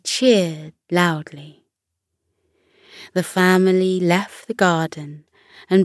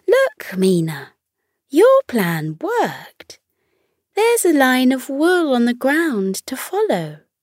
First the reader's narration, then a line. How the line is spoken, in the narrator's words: little Kamal pointed excitedly at the line and said